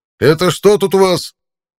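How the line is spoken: Barked. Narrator (Russian): рявкнул он

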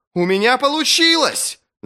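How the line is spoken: Yelling. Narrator (Russian): завопил Джезаль

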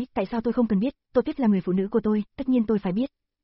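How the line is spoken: Cold. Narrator (Vietnamese): Lưu Tiểu Viễn lạnh lùng nói

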